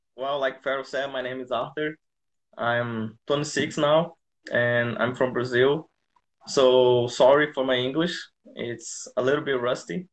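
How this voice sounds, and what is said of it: Foreign-accented English. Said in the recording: “your accent”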